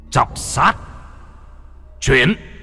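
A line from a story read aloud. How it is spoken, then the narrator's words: Joyful shout. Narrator (Vietnamese): Lâm Phong trên mặt vui mừng, trong miệng quát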